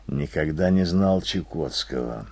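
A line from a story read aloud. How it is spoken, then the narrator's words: Mutter. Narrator (Russian): пробормотал я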